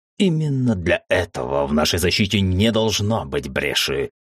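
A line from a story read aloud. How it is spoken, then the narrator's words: Angry growl, dragon. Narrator (Russian): сердито рыкнул дракон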